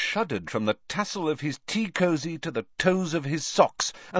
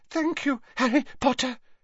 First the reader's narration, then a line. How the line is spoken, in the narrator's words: panted